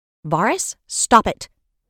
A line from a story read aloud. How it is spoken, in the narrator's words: Serafina snapped